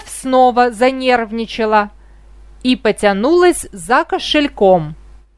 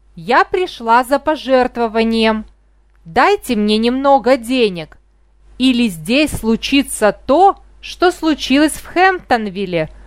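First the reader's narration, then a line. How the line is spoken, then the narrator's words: Threatening old woman. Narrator (Russian): угрожающим тоном сказала старуха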